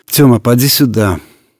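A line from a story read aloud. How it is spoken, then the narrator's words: Tired. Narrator (Russian): устало сказала Вера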